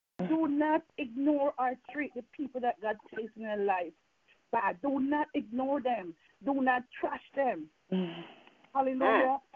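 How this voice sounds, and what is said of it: Slight Jamaican accent. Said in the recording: “I'm from Jamaica, and I still have some Jamaican accent in me”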